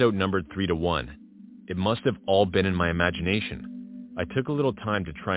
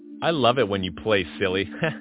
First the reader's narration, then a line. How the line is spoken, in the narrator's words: said Megan, laughing